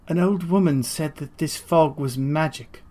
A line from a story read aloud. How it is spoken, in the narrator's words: Guinevere said with a sigh